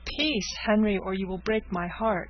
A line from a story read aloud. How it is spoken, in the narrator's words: cried the agitated girl